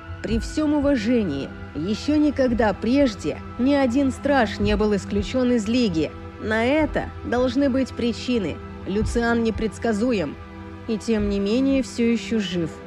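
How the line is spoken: Through gritted teeth. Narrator (Russian): процедила женщина

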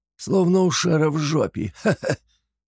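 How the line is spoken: Creaky laugh. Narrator (Russian): скрипуче рассмеялся Флапий

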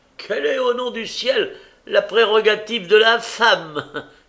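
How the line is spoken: Widow exclaiming. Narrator (French): s'écria la veuve Cornet

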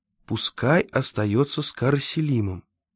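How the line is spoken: Quiet. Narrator (Russian): тихо сказал Владимир

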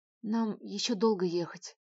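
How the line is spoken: Reluctantly forced out. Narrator (Russian): выдавил из себя

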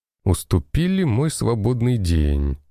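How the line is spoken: Laughing. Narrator (Russian): рассмеялся я

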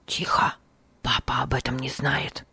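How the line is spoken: Whisper. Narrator (Russian): прошептал Бинони

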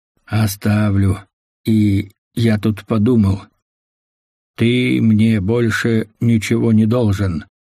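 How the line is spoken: Solemn announcement. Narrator (Russian): торжественно объявил Чико

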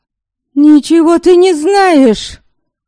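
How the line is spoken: Indignant shout. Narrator (Russian): В негодовании крикнула Ярисава

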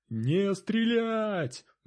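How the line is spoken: Roaring like a bear. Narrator (Russian): медведем взревел лидер

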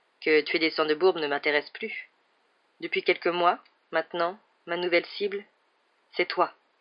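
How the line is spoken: Calm voice. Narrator (French): reprit Dursor d'une voix tranquille

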